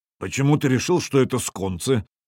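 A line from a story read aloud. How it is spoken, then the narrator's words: Gloomy stone wolf. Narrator (Russian): мрачно произнес каменный волк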